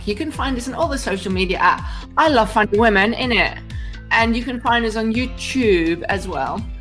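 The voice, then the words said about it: Put-on accent. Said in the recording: “you can do that in any accent you like”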